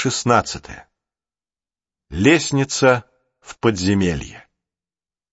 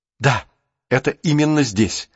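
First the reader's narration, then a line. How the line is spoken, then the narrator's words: Exclaiming. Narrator (Russian): воскликнул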